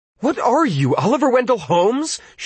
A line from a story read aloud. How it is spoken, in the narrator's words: she rejoined fiercely, but her anger was in some measure overmastered by relief